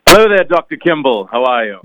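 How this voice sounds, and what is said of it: Put-on dignified British accent. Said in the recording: “A bit of a British accent today. You sound very dignified”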